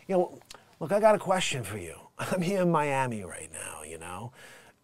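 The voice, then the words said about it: Put-on New York accent. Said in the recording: “a New York accent”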